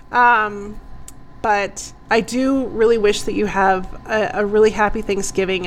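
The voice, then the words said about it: Hoarse, fading voice. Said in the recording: “I'm losing my voice. ... So I'm losing my voice.”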